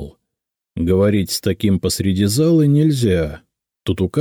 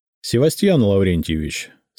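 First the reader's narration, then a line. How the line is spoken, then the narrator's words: Calm. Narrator (Russian): сказал я спокойно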